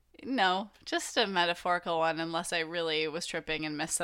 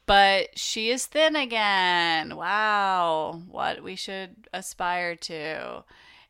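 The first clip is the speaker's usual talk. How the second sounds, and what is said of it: Sarcastic delivery. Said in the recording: “that was sarcasm”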